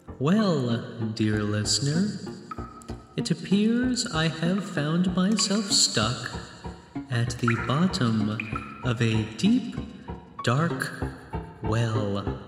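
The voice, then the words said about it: Reverberant, echoing voice. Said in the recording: “my voice is so reverberant”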